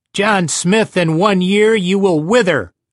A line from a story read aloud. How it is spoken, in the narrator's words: shouted